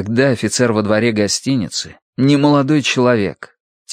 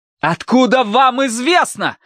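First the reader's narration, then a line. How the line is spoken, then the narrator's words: Shouting. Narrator (Russian): закричал Тай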